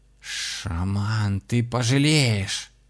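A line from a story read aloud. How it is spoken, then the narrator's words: Hissing. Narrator (Russian): зашипела Кристина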